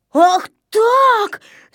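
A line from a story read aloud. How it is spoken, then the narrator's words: Breathless furious shout. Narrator (Russian): закричал, задыхаясь от гнева Незнайка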